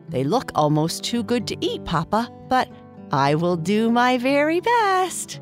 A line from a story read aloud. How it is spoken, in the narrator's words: Bernice said with a laugh